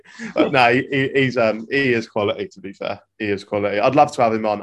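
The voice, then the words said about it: Norwich English accent. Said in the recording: “What's that accent? ... I'm from Norwich.”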